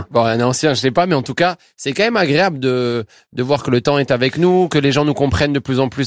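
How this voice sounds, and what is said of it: Toulouse French accent. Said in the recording (French): “Vous avez toujours l'accent toulousain.”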